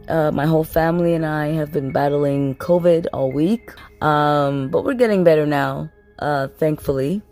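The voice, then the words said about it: Sick, congested voice. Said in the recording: “as you can tell by my voice, I'm sick”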